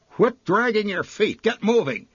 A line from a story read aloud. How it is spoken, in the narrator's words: she barked at the toiling little figure